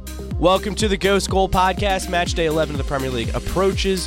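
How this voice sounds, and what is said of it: Sick, rough voice. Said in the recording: “apologize for my voice ... I'm also sick”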